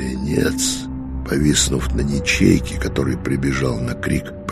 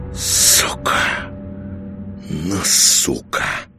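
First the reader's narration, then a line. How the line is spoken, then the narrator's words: Hissing. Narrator (Russian): шипел он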